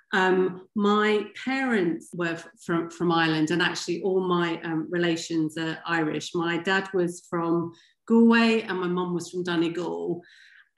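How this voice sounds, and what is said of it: English accent. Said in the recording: “my accent, which is very English”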